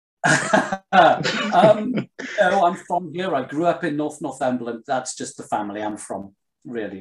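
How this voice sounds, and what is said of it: Posh English accent, not northeastern. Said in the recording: “you don't sound northeastern. You sound posh”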